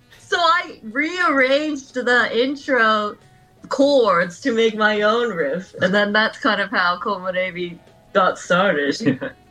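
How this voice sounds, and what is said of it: Slight American accent. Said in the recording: “I can kind of hear a little bit of an American accent going on there in the background”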